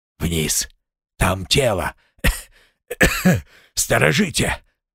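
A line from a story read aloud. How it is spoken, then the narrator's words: Hoarse wheeze. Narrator (Russian): уже почти придя в себя, прохрипел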